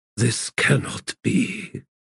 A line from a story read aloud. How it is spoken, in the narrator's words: whispered